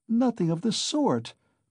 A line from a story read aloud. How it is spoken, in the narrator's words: cried Donya in vexation